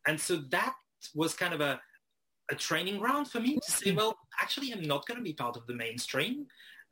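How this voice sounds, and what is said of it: French-accented English, not Australian. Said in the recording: “you grew up in France and we can tell by your accent that maybe it's not the Australian accent”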